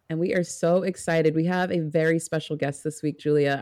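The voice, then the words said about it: Excited, raised pitch, slightly clamped. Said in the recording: “I can hear it in your voice. ... did I get a little like my pitch go up? ... Like, a little clamped.”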